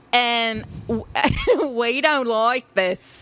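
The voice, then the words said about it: Poor attempt at Australian accent. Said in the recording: “let me try to do an Australian accent. It's going to be terrible. ... That's terrible.”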